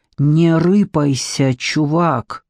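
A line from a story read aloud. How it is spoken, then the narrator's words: Hissed into ear. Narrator (Russian): кто-то прошипел в ухо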